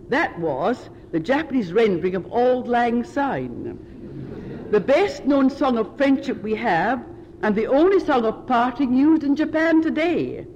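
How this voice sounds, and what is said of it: Scottish accent. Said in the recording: “my Japanese accent superimposed on a Scots one”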